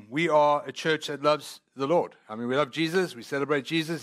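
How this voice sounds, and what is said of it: Noticeable non-local accent. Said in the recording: “I do have a funny accent.”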